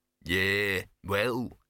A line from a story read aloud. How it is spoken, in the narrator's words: said gloomily